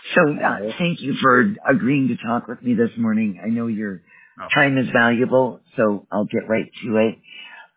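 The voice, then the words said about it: Hoarse, strained voice. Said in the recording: “Sounds like I'm losing my voice”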